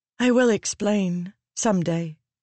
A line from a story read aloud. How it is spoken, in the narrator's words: Shallan said softly to Adolin